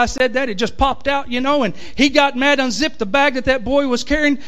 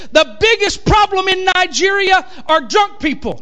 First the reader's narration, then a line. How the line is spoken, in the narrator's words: I'm shouting at him, and I said